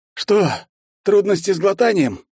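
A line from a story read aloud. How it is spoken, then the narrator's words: Hoarse wheeze. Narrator (Russian): прохрипел я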